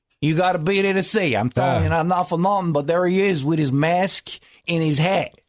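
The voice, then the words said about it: Imitated Long Island accent. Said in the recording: “I love that accent. ... Long Island.”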